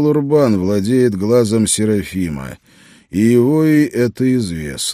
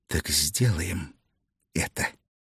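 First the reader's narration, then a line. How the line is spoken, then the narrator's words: Whisper. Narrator (Russian): Гертруда прошептала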